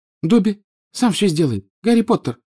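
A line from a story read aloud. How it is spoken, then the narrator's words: Tearful squeak. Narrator (Russian): пропищал Добби, и его большие, как теннисные мячики, глаза наполнились слезами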